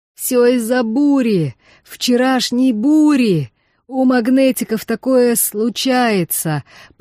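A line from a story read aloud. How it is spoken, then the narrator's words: Creaky voice. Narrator (Russian): проскрипел один из таллинов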